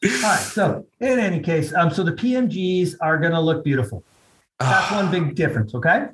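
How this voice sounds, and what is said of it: Usual voice. Nothing is said of it.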